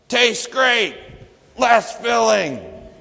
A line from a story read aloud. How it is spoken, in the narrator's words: they were shouting